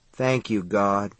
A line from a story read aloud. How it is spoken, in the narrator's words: he said in a small, dull voice